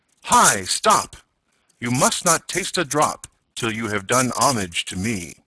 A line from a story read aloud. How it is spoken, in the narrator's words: he cried out in a loud voice